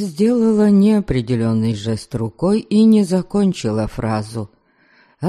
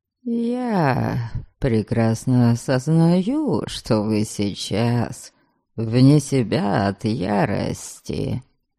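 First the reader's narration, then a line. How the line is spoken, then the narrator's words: Smooth, ingratiating. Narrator (Russian): вкрадчиво проговорил он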